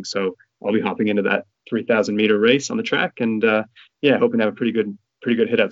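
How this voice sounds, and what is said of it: Noticeable accent. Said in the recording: “a bit of an accent there, mate”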